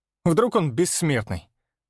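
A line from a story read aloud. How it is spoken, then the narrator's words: Snorting. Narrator (Russian): фыркнул Степка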